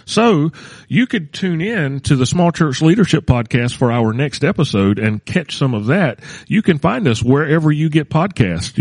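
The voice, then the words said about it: Exaggerated radio announcer voice. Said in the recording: “hear me in my radio voice?”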